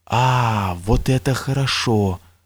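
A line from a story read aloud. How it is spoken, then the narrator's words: Whispered exclamation. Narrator (Russian): шепотом воскликнул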